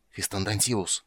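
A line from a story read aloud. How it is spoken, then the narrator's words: Hissed. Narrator (Russian): прошипел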